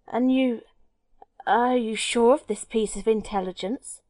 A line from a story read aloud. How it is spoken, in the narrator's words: stammered Gregson